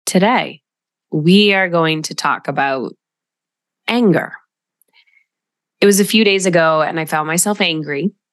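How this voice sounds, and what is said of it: Altered, cold-affected voice. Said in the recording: “you could probably tell that my voice sounds different. Getting over a cold”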